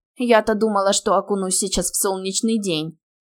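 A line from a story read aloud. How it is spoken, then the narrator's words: Grumbling woman. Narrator (Russian): ворчала шатенка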